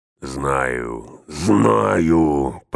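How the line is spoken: Growling. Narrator (Russian): прорычал он

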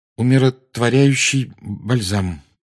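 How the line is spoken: Strained, forced out. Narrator (Russian): выдавил из себя Гарри

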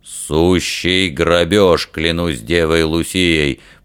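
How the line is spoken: Indignant bass. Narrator (Russian): басом возмутился Фример

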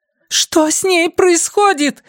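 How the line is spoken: Shouting. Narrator (Russian): закричала Линда

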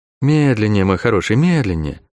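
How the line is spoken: Gentle request. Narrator (Russian): ласково попросила указывающая

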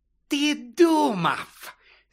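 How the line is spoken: Hiss. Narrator (Ukrainian): зашипіла вона

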